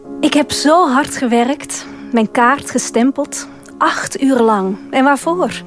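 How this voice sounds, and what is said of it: Dutch (Netherlands) accent. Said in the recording (Dutch): “met jouw mooie Nederlandse accent”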